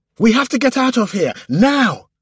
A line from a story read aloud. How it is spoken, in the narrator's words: commanded, almost screaming